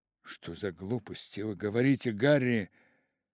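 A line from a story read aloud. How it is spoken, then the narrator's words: Exclaimed. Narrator (Russian): воскликнул Дориан Грей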